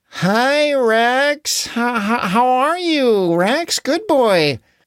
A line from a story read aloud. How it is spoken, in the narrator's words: everyone said nervously